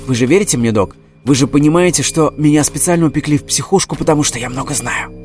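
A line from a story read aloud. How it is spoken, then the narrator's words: Near whisper. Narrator (Russian): почти прошептал Эдик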